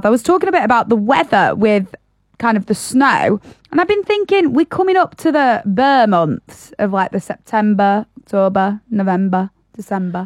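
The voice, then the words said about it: Northern English accent. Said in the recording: “You're saying that in quite a northern accent as it is.”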